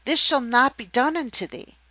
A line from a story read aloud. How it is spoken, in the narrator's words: exclaimed Peter